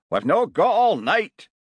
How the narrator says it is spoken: shouted someone from the crowd

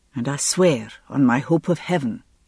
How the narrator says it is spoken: he added softly

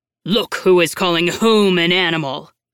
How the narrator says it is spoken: growled the Cowardly Lion

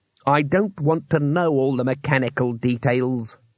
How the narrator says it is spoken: growled Trumon

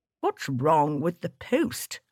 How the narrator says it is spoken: I said cheerfully

